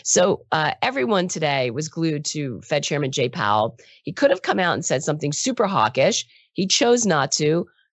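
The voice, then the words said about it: Rough, raspy sick-sounding voice. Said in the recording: “My voice is crap. As I said yesterday, I'm struggling with a cold ... I now sound like Marge Simpson's sister ... I sound worse than I feel”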